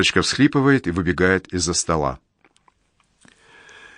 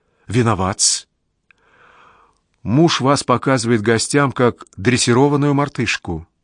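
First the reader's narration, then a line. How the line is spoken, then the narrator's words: Agitated. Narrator (Russian): взволнованно говорит ему Верочка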